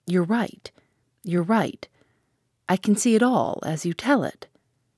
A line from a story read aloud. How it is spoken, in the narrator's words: She had flung up her hands to cover her face, and in a choked voice she said